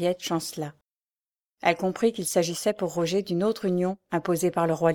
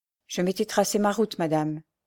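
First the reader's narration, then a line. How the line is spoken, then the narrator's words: Plain. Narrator (French): dit-elle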